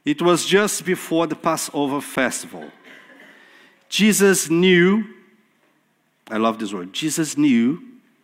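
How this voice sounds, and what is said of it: Speaks English with a noticeable accent. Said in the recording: “I'll punish you with my accent now.”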